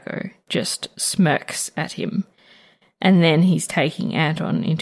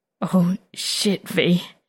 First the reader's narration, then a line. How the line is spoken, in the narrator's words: he manages to stutter